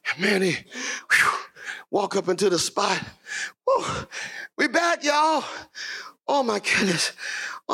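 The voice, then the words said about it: Breathless, out-of-breath speaking. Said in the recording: “I'm out of breath.”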